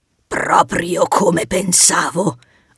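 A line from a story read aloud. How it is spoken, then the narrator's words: Satisfied roar. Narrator (Italian): ruggì soddisfatto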